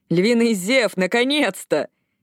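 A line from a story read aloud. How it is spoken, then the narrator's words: Distant shout. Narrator (Russian): Где-то позади крикнули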